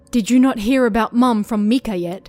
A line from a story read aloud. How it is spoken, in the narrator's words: She asked, her tone fierce